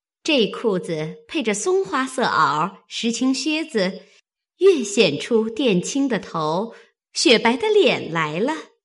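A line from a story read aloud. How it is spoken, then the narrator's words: Laughing. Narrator (Chinese): 麝月笑道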